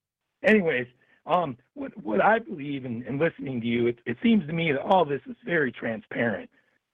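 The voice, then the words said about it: Rough, worn-out voice. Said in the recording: “my voice is a little shot... I forgot how bad my voice is.”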